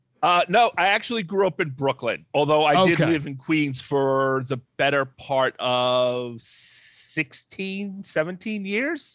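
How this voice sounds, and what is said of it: New York accent. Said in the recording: “Based on your accent, I'm going with Queens.”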